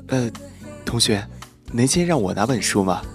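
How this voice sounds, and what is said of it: Quiet, hushed voice. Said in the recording (Chinese): “就有个男生在后面小声说”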